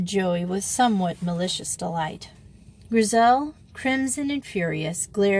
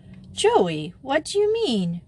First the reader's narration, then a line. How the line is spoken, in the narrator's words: cried Wanda, astounded